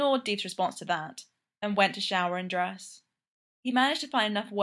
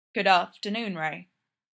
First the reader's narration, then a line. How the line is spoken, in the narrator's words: Fraser said, keeping his voice even